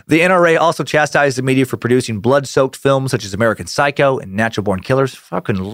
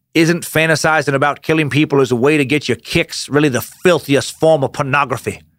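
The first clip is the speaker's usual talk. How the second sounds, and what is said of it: Old-school Southern American accent. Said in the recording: “I don't know why I'm giving a old school Southern accent to all these people”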